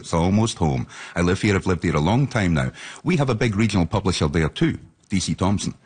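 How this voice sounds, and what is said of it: Scottish accent. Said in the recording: “So you hear my accent. I'm from Dundee in East Central Scotland”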